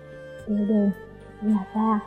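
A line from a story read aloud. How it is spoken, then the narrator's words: Tense, choked, hoarse. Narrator (Vietnamese): Vân Trầm Nhã trong lòng căng thẳng, yết hầu nghẹn nghẹn, giọng khàn khàn nói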